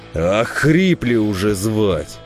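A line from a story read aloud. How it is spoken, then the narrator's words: Angry snarl. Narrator (Russian): хищно оскалил зубы десятник, зло сверкнул глазами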